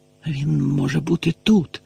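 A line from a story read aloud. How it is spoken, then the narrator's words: Hoarse whisper. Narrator (Ukrainian): хрипко зашепотів Гаррі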